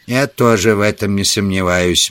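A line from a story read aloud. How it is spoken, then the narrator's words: Gloomy. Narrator (Russian): мрачно проговорил Саммерли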